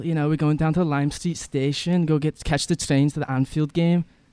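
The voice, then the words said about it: Put-on Liverpool English accent. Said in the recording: “Let me hear your English uh, accent. ... That's like that's from Liverpool.”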